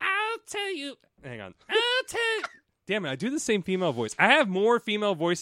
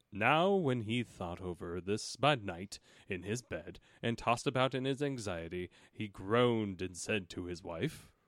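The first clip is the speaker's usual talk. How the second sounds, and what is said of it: Storybook narrator voice. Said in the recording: “in my narrator voice.”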